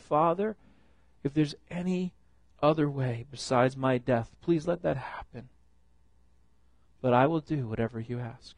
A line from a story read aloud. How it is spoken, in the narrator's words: Filled with pain and sorrow, he pleaded with God